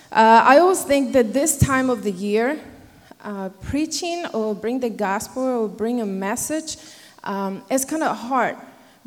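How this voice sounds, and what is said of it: Non-native English accent. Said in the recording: “They're not used to my accents.”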